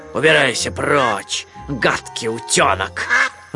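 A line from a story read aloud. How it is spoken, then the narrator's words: Growl. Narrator (Russian): рыкнул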